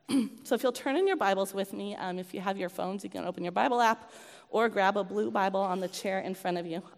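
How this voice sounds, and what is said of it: Hoarse, congested voice. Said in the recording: “apologize for my voice, by the way. I had a cold this week ... I've got gunkiness in my throat”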